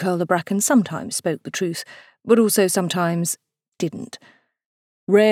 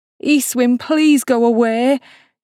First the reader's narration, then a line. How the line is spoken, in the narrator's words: he cried